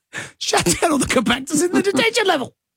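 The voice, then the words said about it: Imitates another person's voice. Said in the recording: “do a voice that sounds like your version of Mark Hamill”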